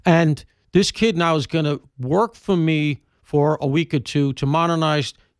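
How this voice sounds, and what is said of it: Deep Southern Alabama accent. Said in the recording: “my obvious Alabama accent, I'm told. I have a very deep Southern accent, as you can hear.”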